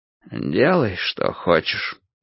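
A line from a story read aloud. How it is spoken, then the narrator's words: Dejected. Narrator (Russian): уныло сказал Кораблев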